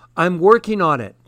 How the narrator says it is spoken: Priya cried from the stove

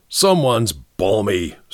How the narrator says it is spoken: snarled Mr

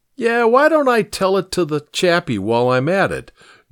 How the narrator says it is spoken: Georgie snorted

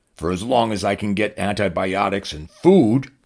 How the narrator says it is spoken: replied gruffly

